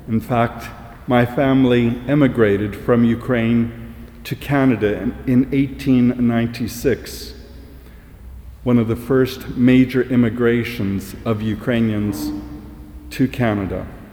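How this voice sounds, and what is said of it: Non-local accent, not from Coventry. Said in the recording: “As you might tell from my accent, I'm not from Coventry.”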